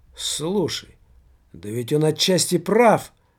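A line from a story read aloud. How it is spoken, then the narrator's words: Exclaimed. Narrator (Russian): воскликнул Тимофей Вакулов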